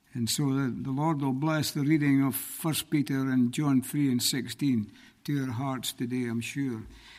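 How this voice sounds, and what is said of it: Scottish accent. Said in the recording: “As you can tell by my accent, I'm not from these parts ... I'm from originally from Scotland”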